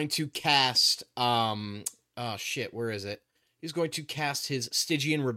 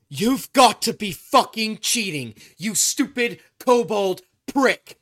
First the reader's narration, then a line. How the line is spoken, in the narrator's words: in reaction to taking this damage, Alistair's going to scream